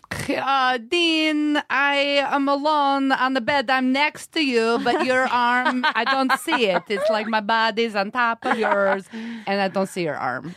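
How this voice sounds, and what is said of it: Put-on accent imitating another person. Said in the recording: “Accent, please.”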